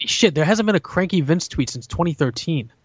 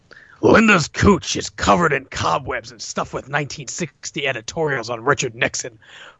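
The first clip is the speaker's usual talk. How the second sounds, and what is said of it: Imitates another person's voice. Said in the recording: “my best Vince McMahon impression”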